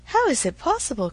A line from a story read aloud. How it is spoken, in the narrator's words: cried Emma